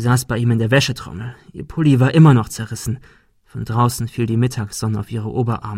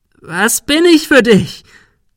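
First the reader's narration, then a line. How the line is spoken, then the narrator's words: Shrieking. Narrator (German): Sarah kreischte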